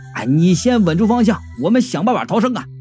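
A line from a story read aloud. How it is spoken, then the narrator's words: Young man shouting. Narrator (Chinese): 小年轻就喊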